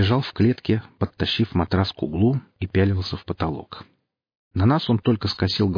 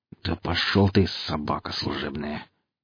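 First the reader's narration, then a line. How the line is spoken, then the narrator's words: Quiet through gritted teeth. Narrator (Russian): тихонько процедил Чист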